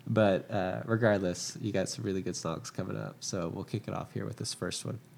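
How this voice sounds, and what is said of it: Congested, stuffy-nosed voice. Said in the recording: “apologize for my voice. ... My allergies are like going crazy right now. So I'm all like stopped up”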